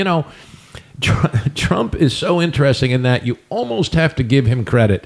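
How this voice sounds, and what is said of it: Usual voice. Nothing is said of it.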